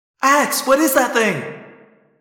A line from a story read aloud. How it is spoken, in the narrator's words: Cassie cried